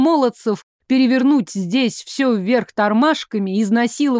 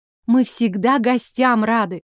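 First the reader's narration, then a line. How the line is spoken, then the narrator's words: Grunting snort. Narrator (Russian): Джон хмыкнул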